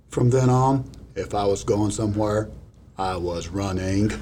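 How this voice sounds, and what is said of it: Forrest Gump impression. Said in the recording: “I'm a Forrest Gump impersonator ... You need to give us a Forrest Gump”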